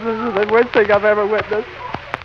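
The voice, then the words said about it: Breathless, losing voice. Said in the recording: “I can hardly breathe... I've lost my voice.”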